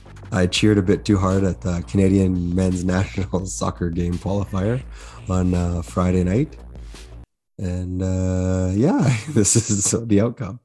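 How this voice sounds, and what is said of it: Hoarse, nearly gone voice. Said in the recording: “My voice is, as you can tell, pretty coarse and almost non-existent.”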